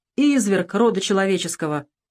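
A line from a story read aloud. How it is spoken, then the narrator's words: Sighing exclamation. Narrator (Russian): Снова вздохнул Пронин и воскликнул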